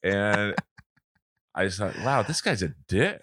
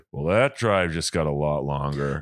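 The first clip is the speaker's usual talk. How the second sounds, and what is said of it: Imitates another person's voice. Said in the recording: “I can't do a good impression of him”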